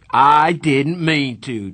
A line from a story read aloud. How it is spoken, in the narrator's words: Darry shouted